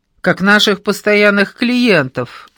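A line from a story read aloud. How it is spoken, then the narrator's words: Loud laughter. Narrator (Russian): захохотал Андрюша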